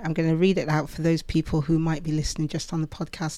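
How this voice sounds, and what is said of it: British accent. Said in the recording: “some people don't understand my British accent”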